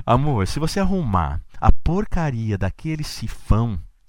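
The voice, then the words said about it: Imitates a woman's voice. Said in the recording (Portuguese): “eu imitando mulher”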